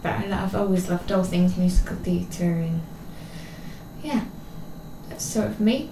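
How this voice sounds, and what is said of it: English accent. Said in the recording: “there's that English accent.”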